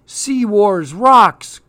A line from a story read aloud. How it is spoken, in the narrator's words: cried Clark